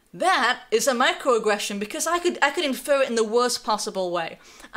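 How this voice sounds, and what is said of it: Slight non-local accent. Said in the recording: “I have a bit of an accent”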